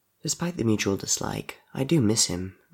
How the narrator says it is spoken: Murdoch said quietly

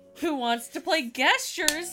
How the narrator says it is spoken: Bob asked excitedly

